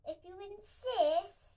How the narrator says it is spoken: said the hyena, laughing eerily

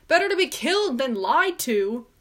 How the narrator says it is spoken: shouting

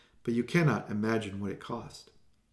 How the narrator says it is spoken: sighed

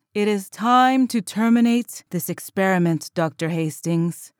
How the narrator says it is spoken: said the being in light in a hauntingly resounding voice

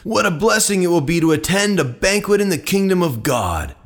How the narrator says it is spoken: a man sitting at the table with Jesus exclaimed

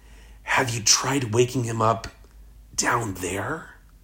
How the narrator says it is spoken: His mother whispers to me

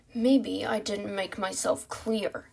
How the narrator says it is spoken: the leader growled

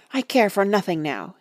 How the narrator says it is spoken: he answered hotly

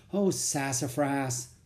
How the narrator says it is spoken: I sighed

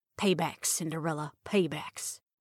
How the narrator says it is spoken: muttered

